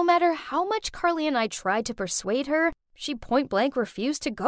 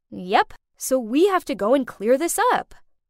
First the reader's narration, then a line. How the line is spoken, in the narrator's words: firmly said